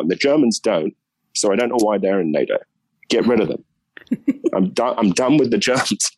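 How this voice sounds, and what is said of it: British accent. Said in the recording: “someone saying that with a British accent”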